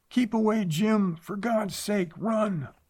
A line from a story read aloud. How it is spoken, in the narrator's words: she screamed